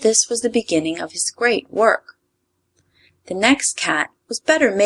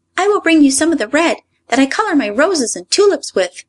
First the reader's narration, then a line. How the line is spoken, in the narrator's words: cried the red Ryl